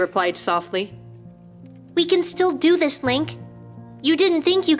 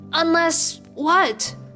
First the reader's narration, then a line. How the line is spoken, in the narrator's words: Link asked slowly